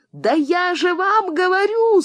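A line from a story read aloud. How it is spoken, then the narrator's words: Yelling again. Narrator (Russian): снова завопила Элита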